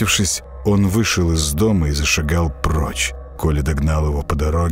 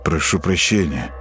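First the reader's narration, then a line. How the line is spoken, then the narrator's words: Mutter. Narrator (Russian): пробормотал Матиас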